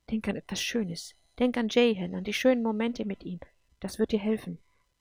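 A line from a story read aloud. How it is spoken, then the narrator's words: Quiet inner voice. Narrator (German): sagte eine leise Stimme in ihrem Kopf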